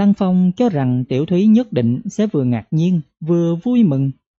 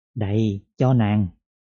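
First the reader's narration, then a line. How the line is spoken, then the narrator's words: Soft, gentle. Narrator (Vietnamese): Hà Lăng Phong nhỏ nhẹ nói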